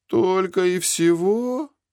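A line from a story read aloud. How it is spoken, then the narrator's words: Disappointed drawl. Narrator (Russian): разочарованно протянул Зик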